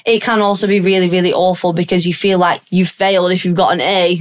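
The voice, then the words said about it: Northern English accent. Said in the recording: “have we heard my northern accent”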